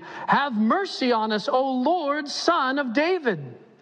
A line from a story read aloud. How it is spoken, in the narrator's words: they cried out all the more, saying